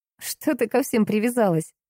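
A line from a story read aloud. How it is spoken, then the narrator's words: Laughing. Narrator (Russian): рассмеялась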